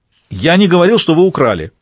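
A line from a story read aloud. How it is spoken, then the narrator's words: Shouted. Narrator (Russian): крикнул Молоков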